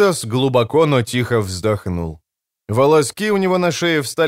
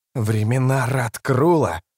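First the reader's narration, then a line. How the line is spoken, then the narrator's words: Hissed. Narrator (Russian): прошипел Рад Престол Тени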